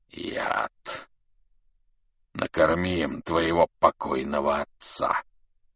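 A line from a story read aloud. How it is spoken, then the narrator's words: Hissing. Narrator (Russian): прошипел Субудай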